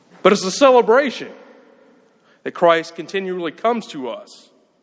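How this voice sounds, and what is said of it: Southern US Alabama accent. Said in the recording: “in case you can't tell by my accent ... I'm from Alabama.”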